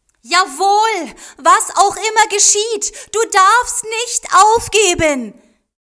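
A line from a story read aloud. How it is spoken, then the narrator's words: Calling out. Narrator (German): rief Kaso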